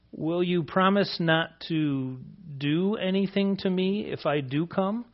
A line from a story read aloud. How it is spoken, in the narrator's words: meekly asks